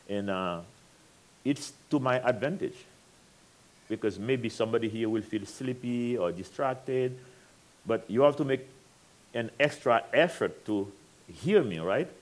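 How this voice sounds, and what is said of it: French accent. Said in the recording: “I have a French accent.”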